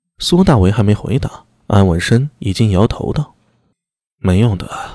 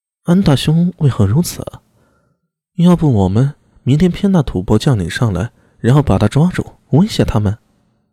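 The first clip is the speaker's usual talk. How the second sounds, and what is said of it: Quiet, hushed speaking voice. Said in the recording (Chinese): “小声说道”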